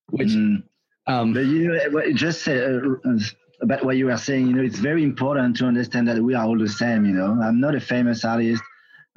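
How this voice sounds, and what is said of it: Non-native English accent. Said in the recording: “you have a cool accent”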